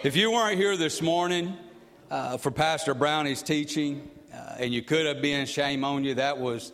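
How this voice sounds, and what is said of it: Unfamiliar regional accent. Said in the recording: “I know I got the accent's a little different. It's a little off, maybe not what you're used to.”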